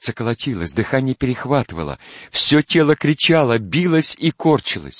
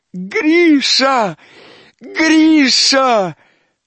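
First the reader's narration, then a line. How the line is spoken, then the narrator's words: Desperate scream. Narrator (Russian): отчаянным воплем закричала она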